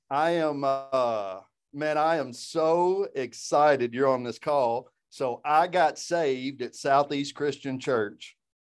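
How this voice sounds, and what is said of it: Deep Southern US accent. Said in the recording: “I do have a deep, deep Southern accent”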